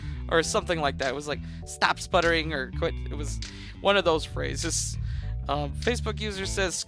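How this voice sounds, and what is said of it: Usual voice. Nothing is said of it.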